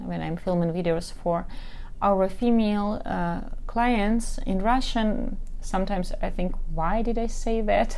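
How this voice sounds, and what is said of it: Non-native English accent. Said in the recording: “I hope my accent and my mistakes do not bug you that much.”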